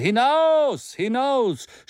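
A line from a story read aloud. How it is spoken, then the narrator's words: Excited crowd shouting. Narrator (German): schrie die aufgeregte Menge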